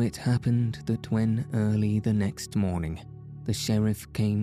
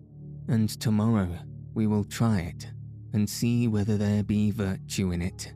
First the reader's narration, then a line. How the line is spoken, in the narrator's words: quoth the king merrily